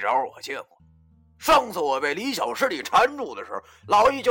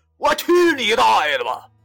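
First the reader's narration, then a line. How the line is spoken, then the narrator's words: Loud shout. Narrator (Chinese): 大喊一声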